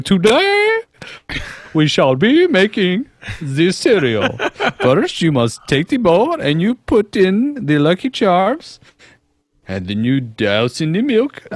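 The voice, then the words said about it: Imitates another person's voice, weird accent. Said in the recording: “I would do a Julia Childs ... it got in a weird accent from Julia Childs to something else”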